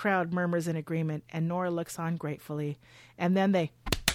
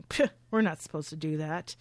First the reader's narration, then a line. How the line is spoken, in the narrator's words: They scoff, saying